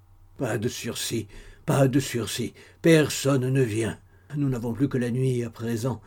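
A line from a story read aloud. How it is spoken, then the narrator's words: Weak, moaning voice. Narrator (French): disait Denis d'une voix faible et gémissante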